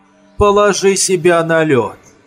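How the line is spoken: Stern but calm. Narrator (Russian): произнес он суровым, но спокойным голосом

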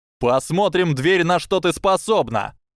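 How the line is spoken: Older boy shouting. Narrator (Russian): крикнул мальчик постарше

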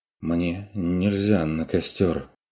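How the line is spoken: Dazed muttering. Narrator (Russian): оторопело пробормотал сторож

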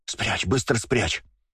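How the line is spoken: Anxious whisper. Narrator (Russian): кто-то из них, кажется, Сева как раз, тревожно зашептал

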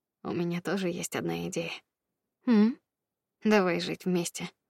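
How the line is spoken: Slightly hoarse. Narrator (Russian): Федя слегка охрипшим голосом сказал

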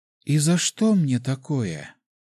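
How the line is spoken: Bewildered woman's whisper. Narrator (Russian): растерянно прошептала женщина

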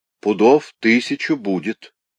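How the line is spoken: Plain. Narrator (Russian): сказал председатель комиссии

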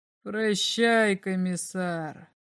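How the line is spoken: Strange voice. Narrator (Russian): сказал он еще раз своим странным голосом

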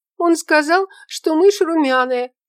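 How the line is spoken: Squeaking. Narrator (Russian): пискнула девушка

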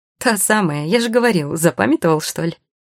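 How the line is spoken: Laughing. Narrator (Russian): рассмеялся Люсьен

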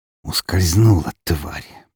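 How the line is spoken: Hissing through teeth. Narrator (Russian): процедил Меркулов

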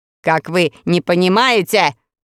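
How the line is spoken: Shouting over loud noise. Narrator (Russian): тоже прокричал Каурук, поскольку шум вокруг стоял невообразимый

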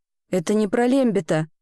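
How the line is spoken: Forced through clenched teeth. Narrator (Russian): выдавила девочка сквозь зубы

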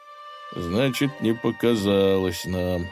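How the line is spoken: Sighing. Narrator (Russian): вздохнул Добрыня

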